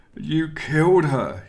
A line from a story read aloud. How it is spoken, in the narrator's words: he wailed